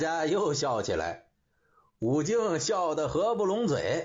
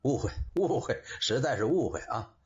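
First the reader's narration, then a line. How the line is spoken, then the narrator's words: Embarrassed, flustered. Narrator (Chinese): 金旺来满脸通红，说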